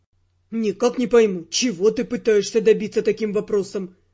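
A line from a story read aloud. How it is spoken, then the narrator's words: Grumbling. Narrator (Russian): проворчал Тео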